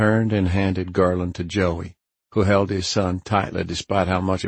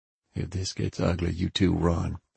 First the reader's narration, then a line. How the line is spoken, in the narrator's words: I said softly